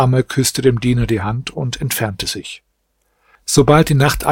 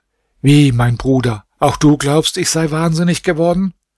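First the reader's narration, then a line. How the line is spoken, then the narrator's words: Exclaiming. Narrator (German): Diese aber rief aus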